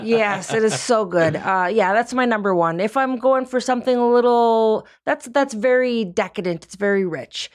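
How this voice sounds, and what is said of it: Slight Upper Midwest accent. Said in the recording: “Did I detect a little Minnesota night accent from you? ... A Youper. I'm from Upper Michigan.”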